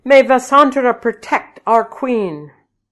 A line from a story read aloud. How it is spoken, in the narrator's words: the people shouted